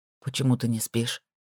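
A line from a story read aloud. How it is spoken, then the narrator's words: Quiet question. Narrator (Russian): спросил он негромко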